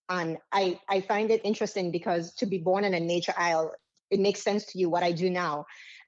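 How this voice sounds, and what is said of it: Slight Caribbean accent. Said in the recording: “you probably hear a bit of an accent here. I am Caribbean”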